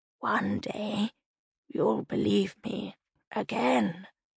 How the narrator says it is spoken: Liliana rasped

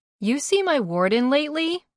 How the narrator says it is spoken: I hollered to Boink

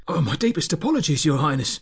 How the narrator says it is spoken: Lorenzo gasped with worry

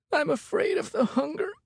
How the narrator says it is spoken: said Ted, his voice breaking with emotion

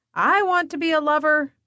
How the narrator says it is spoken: Penny yells

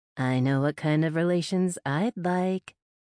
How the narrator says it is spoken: I purred

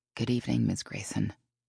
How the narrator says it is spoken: she said quietly, as if not to interrupt Elise's phone conversation

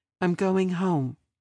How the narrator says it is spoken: she spoke evenly

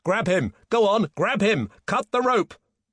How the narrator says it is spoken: Peter shouted

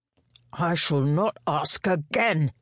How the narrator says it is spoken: he growled

